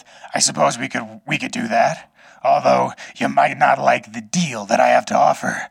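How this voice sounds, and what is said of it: Raspy ghoul character voice. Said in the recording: “doing a ghoul voice”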